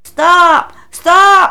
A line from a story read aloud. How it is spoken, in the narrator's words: cried